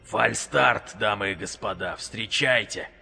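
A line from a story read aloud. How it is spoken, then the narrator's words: Grumbling under breath. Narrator (Russian): буркнул себе под нос Вик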